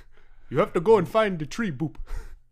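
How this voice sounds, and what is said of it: Put-on Ugandan accent ending in boop. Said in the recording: “guys who speak in a, like, let's say, like, Ugandan accent, but then they just go boop at the end”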